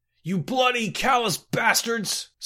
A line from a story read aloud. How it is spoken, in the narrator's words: Scotty howled